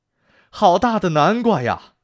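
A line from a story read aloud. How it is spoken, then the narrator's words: Father bear shouting loudly. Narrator (Chinese): 熊爸爸大声喊起来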